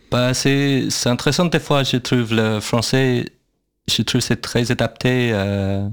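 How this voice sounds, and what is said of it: Non-native English-speaker accent in French. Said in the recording (French): “j'ai pas un très bon accent déjà quand je parlais français”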